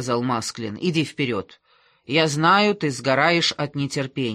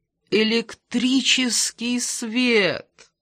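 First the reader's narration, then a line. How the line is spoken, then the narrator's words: Groaned. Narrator (Russian): простонал он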